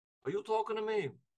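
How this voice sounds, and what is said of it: Weak New York accent impression. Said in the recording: “I'm gonna do my Robert De Niro ... I can do a little bit of New York for you. I'm not good at it ... that's the worst accent I've ever heard”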